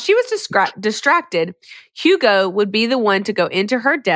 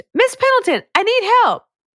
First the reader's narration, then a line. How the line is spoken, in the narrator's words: So he screamed